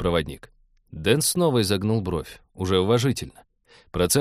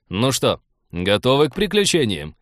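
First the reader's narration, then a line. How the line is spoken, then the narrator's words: Cheerful question. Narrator (Russian): бодро осведомился Артур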